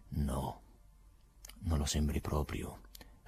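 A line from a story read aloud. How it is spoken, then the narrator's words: Soft-voiced reply. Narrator (Italian): rispose con voce sommessa il procuratore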